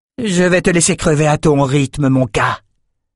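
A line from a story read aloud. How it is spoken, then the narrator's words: Hissed. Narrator (French): siffla-t-elle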